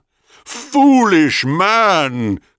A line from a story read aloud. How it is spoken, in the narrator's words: cried Thanatos